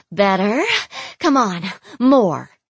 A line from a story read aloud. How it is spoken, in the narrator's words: Yureli gasped